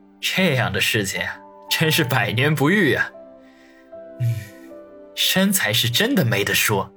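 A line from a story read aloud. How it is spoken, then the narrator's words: Smiling murmur to himself. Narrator (Chinese): 露出一抹微笑来，喃喃自语道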